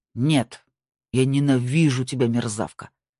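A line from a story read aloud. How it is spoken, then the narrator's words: Playful growl. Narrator (Russian): в шутку прорычал Марк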